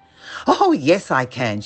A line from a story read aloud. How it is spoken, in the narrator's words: cried